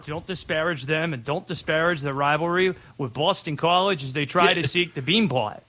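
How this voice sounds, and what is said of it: Attempted Boston accent. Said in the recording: “Is that you trying to do a Boston accent?”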